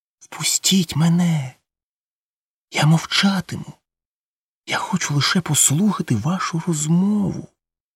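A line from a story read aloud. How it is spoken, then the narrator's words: Whisper. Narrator (Ukrainian): прошепотіти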